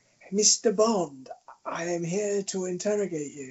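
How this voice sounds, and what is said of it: Bad put-on German accent. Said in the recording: “got the worst German accent ever”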